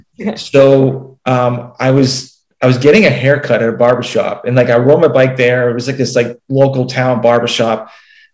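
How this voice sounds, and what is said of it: Slight Massachusetts accent. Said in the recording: “I'm originally from Massachusetts, and you can kind of tell by the accent a little bit.”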